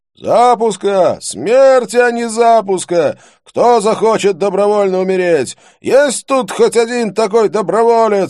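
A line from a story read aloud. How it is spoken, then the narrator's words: Shouted out. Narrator (Russian): выкрикнул кто-то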